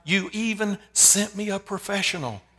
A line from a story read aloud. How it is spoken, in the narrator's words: with sobbing tears, cried out to God